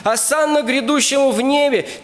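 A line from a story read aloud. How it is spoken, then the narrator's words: Crowd shouting. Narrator (Russian): те же самые люди, они кричали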